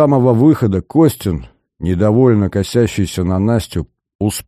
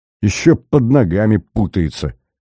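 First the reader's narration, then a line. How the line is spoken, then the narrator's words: Through clenched teeth. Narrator (Russian): процедил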